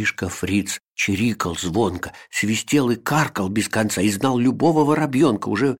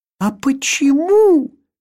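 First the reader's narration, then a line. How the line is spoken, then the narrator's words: Exclaimed. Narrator (Russian): воскликнул Вилли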